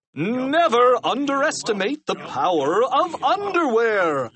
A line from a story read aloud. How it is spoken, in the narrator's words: cried Captain Underpants